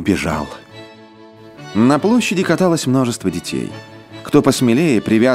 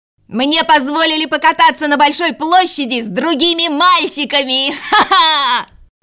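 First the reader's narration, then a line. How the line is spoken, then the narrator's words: Shouted right into ear. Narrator (Russian): Кай крикнул Герде в самое ухо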